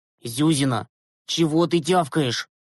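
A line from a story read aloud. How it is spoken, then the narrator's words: Snapping retort. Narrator (Russian): огрызнулся Глеб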